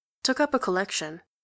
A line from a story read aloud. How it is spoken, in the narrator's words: she says quickly